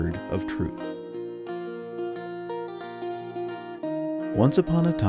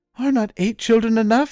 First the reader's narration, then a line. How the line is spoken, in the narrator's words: cried